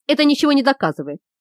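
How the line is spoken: Trying to sound firm. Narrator (Russian): постарался произнести он твердым голосом

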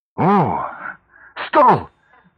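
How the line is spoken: Delighted cry. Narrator (Russian): восторженно вскрикнула она, точно сделала невероятное открытие

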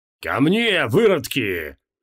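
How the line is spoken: Roaring. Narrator (Russian): взревел архидемон Креол

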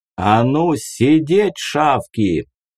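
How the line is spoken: Thundering voice. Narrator (Russian): Его голос прогремел снова

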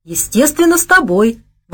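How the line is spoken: Exclaiming with a giggle. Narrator (Russian): воскликнула она и хихикнула

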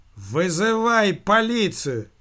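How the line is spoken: Waiter shouting. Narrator (Russian): крикнул официант

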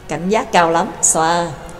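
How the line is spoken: Smiling. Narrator (Vietnamese): y mỉm cười nói

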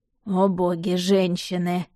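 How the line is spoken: Pointed sigh. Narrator (Russian): демонстративно вздохнул Влад

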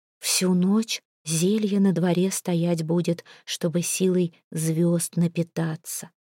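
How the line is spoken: Whisper. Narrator (Russian): шепотом сказала она

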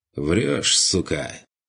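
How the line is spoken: Lazy call, suitor. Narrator (Russian): Лениво подал голос оставленный Марией ухажер

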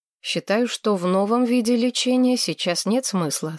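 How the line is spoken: Plain. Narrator (Russian): сказал он

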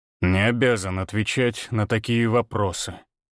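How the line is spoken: Cold, through teeth. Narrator (Russian): процедил холодно

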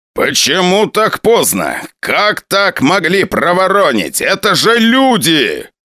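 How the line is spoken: Shouting. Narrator (Russian): кричал генерал

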